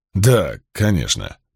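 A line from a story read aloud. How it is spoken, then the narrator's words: Muttered. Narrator (Russian): пробормотал Каст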